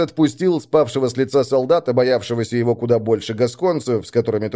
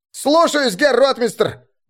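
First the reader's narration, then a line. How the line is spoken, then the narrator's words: Young recruit barking. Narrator (Russian): Гаркнул молодой ланскнехт, зеленый новобранец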